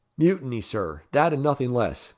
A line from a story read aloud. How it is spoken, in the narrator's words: gasped Carter, whose passion almost deprived him of speech